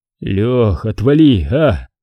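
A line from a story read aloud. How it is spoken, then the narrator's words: Tired mumble. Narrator (Russian): Устало пробормотал Степан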